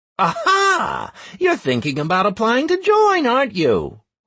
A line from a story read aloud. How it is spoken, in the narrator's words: laughed one of the dwarves